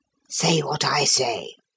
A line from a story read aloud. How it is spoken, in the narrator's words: he whispered